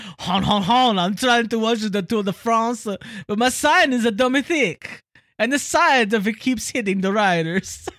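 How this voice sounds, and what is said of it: Bad put-on French accent. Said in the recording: “That was the worst French accent I've ever done in my life.”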